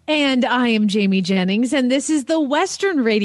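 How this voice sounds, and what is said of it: Usual voice. Nothing is said of it.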